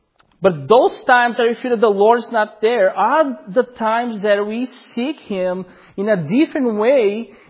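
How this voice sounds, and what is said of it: Noticeable accent. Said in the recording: “especially because of my accent”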